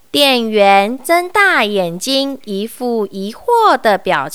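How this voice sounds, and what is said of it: Usual voice. Nothing is said of it.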